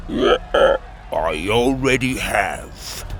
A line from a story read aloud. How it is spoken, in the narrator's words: Timothy croaked